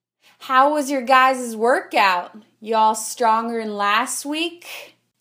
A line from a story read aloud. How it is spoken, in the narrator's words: in her Oklahoma accent